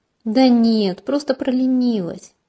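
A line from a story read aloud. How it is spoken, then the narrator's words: Sighed. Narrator (Russian): вздохнула я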